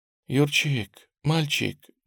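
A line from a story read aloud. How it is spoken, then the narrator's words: Tender speech. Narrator (Russian): нежно говорит Тамара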